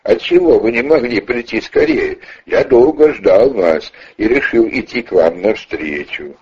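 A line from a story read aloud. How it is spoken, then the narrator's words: Asked laughingly. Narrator (Russian): смеясь над ними, спросил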